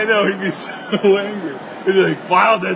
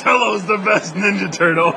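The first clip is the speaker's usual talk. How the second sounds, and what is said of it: Poor Bender impression, Cookie Monster-like. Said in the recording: “the voice of Bender ... that's really a bad impression of me ... It sounds like Cookie Monster.”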